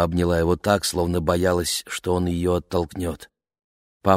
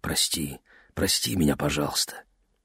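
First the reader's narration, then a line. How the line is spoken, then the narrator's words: Whisper. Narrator (Russian): он прошептал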